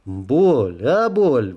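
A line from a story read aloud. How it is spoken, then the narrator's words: Shout. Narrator (Russian): выкрикнул я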